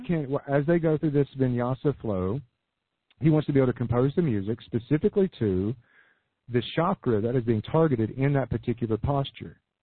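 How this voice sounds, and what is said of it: Hoarse, failing voice. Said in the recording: “I'm losing my voice here. ... Gosh, I'm really losing my voice.”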